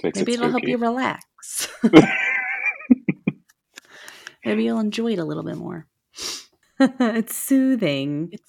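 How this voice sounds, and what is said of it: Deep, allergy-affected voice. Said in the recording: “apologize for my voice... My allergies are really bad, so my voice is a little deep”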